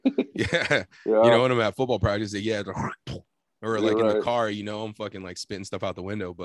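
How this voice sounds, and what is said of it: Congested, sick-sounding voice. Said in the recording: “blowing my nose constantly ... you can probably hear it in my voice ... sneezing and coughing”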